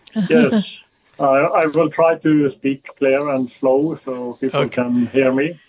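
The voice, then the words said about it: Norwegian accent. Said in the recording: “a Norwegian accent, you'll have to listen closely”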